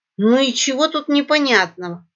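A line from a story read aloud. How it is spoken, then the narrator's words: Snorting. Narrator (Russian): хмыкнул Великий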